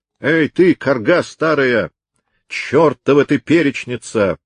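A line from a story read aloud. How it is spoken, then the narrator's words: Rough voice booming, echoing. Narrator (Russian): прогремел из глубины пещеры грубый голос Дирка Хаттерайк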